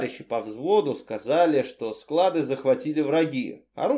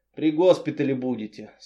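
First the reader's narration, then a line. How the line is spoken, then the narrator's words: Plain. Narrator (Russian): сказал хирург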